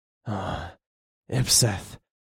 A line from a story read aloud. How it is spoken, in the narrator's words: I growled